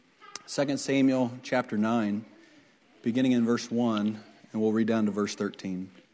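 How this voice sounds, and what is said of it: Strained, failing voice. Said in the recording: “My voice is not holding up very well”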